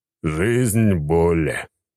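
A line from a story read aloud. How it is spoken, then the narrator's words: Moaning. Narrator (Russian): вновь простонал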